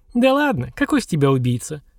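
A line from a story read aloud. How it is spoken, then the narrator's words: Surprised female giggle. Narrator (Russian): хихикнула девица, от неожиданности переходя на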